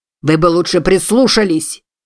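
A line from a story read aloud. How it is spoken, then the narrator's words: Shouting after someone. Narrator (Russian): крикнул он ей вслед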